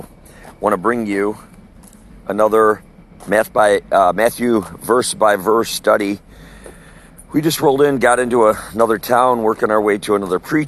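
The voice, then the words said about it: Slightly sore voice. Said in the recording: “My voice is a little sore”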